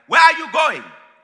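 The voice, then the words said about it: Put-on Nigerian accent. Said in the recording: “My parents are Nigerian, by the way, hence the accent.”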